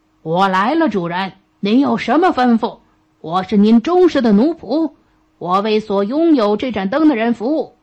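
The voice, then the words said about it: Thunderous booming giant voice. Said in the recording (Chinese): “一个面目狰狞的巨人，用雷鸣般的声音说”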